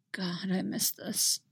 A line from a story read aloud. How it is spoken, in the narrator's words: mumble